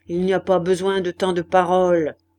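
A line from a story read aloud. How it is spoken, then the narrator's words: Abrupt grumble. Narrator (French): grogna brusquement Maheu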